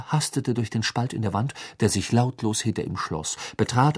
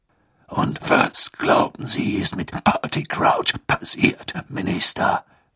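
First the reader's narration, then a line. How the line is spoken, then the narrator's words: Growling voice. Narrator (German): ertönte Moodys knurrende Stimme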